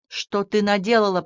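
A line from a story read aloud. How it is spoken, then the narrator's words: Hissed. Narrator (Russian): прошипел он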